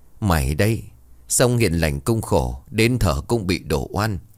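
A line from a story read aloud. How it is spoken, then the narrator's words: Grandmother's weary sigh. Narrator (Vietnamese): Bà nội Tèo thở dài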